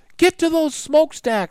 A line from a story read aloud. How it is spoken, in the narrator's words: cried Jack